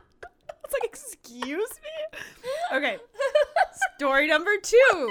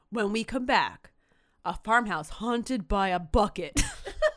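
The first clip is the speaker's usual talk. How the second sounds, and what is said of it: Dramatic movie-trailer narrator voice. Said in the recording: “the Don LaFontaine In a World voice”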